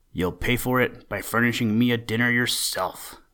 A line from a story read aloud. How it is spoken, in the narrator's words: growled Buster